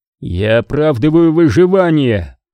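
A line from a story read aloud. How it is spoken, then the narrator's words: Growled. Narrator (Russian): прорычал Кинерик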